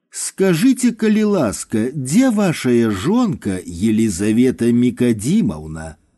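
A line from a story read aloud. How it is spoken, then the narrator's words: Sudden smiling tone. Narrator (Belarusian): Нечакана Віктор Александрович усміхнуўся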